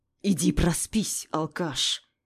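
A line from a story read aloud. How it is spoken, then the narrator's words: Angry, through gritted teeth. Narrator (Russian): Зло процедил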